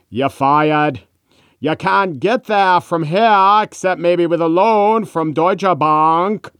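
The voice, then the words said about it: Donald Trump with Maine accent. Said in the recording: “Donald Trump with a Maine accent”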